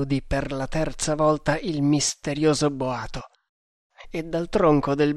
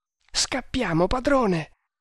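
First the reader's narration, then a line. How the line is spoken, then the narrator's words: Pleading. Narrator (Italian): supplicò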